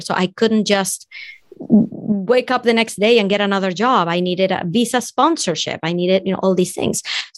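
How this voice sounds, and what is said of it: Venezuelan Spanish-accented English. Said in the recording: “If you can tell from my accent, I'm from Venezuela”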